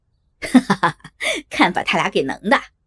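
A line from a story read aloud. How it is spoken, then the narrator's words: Laughing. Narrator (Chinese): 三哥不禁笑了起来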